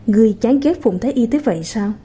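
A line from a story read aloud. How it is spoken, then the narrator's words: Gentle, teasing, smiling question. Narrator (Vietnamese): hoàng hậu mới thả lỏng, mỉm cười mà nhìn Tang Chi, lại hỏi, ngữ điệu nhẹ nhàng hài hước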